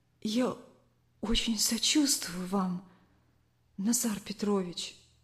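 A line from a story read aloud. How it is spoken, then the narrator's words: Quiet. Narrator (Russian): тихо сказала Лариса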